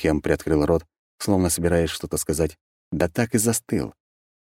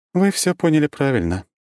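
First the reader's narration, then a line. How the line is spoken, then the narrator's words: Sad, smiling. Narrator (Russian): печально улыбнулась Круанна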